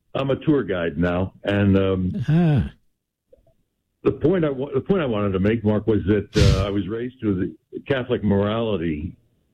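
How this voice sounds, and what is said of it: Polished broadcaster's radio voice. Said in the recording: “radio voice, America. you have a radio voice.”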